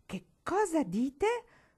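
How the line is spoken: Sudden thundering voice. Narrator (Italian): tuonò lo zio Jarvis improvvisamente

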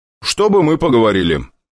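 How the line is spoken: Loud, casual. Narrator (Russian): как ни в чем не бывало, громко проговорил

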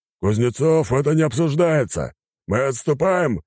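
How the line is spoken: Commanding bark. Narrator (Russian): рявкнул адмирал

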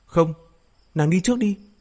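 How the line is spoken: Long loud shout. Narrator (Vietnamese): Hồng Thế Phương thét dài, cao giọng quát

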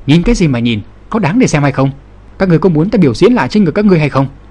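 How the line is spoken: Angry shout. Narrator (Vietnamese): Lăng Kiếm tức giận quát

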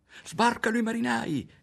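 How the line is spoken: Shouting. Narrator (Italian): gridò Ario

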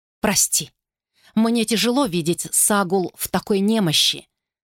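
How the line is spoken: Plain. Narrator (Russian): сказала она

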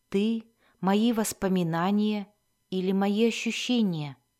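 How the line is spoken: Whispered question. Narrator (Russian): шепотом произнесенного вопроса

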